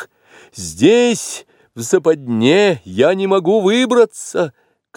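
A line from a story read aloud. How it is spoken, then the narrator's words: Shout. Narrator (Russian): крикнул Маугли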